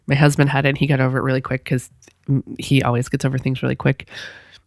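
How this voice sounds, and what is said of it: Sick-sounding voice. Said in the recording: “I'm sick. You can probably hear it in my voice.”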